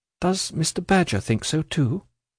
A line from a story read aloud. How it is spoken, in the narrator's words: asked Ada timidly